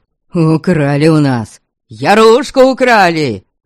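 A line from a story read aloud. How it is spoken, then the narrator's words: Many voices wailing. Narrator (Russian): Вопили они на разные голоса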